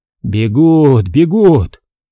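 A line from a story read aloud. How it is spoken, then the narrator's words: Joyful exclamation. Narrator (Russian): радостно воскликнул Федор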